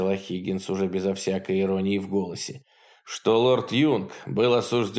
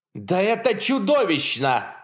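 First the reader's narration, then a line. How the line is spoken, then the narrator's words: Roar. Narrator (Russian): взревел Яначек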